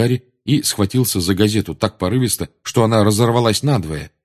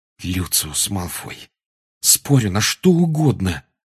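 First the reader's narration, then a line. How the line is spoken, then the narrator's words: Quiet and furious. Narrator (Russian): тихо и с яростью проговорил Гарри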